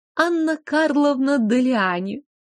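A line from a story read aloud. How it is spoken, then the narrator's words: Purring woman. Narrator (Russian): промурлыкала дамочка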